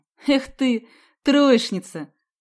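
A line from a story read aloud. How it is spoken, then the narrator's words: Scoffing snort. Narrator (Russian): хмыкнул Сидякин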